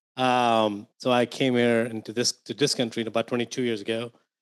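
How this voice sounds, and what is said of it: Indian English accent. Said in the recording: “if my accent didn't give away or my name didn't give away, I grew up in India”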